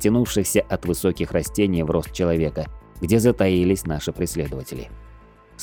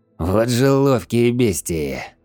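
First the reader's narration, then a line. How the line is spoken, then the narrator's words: Breathless wheeze. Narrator (Russian): тяжело дыша прохрипел я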